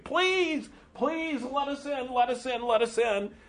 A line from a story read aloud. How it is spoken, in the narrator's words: The children are desperate to try to get to Narnia, to get away from the bullies, and they're shouting Aslan's name and saying